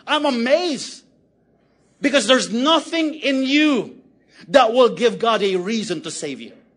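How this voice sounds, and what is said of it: Shouting. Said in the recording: “I'm shouting”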